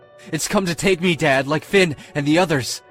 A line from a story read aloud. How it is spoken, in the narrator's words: I howled in utter despair as the tears slid down my cheek